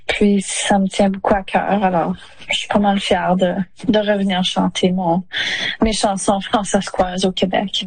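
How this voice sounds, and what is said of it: Regional French accent. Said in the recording (French): “c'est magnifique que tu aies un accent. C'est cet accent-là aussi qu'on veut entendre”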